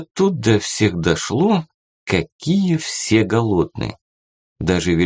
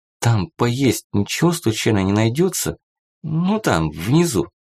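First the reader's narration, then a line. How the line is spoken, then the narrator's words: Angry question through teeth. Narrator (Russian): Даша пылала праведным гневом ... сквозь зубы спросила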